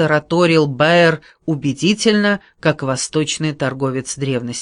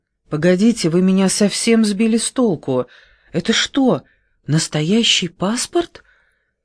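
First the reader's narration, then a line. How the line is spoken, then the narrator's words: Confused babbling. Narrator (Russian): пролепетала Вера растерянно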